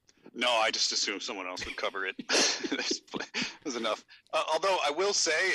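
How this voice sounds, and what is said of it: Usual voice. Nothing is said of it.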